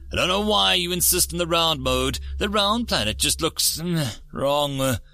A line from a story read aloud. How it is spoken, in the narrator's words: Ripdoy said gruffly